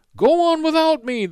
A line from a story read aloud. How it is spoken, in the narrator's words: the cadet called out